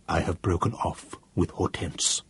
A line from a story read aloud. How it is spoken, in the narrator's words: in a still lower voice, he said